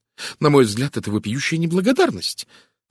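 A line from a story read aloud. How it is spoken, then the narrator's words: Indignant exclamation. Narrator (Russian): возмущенно воскликнула жена доктора Танёса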